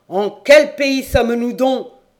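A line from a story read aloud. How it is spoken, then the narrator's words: Thundering exclamation. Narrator (French): s'écria Jean Carré d'une voix de tonnerre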